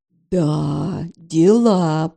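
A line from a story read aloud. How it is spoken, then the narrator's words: Drawn-out. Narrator (Russian): протянула я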